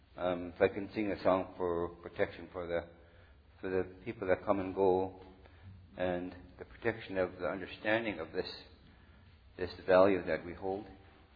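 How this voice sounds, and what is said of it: Voice strained by sore throat. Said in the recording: “I have a sore throat today, sorry.”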